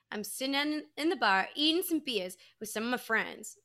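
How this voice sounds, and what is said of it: Thick put-on Boston accent. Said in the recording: “saying in his Boston accent ... in his thick Boston accent”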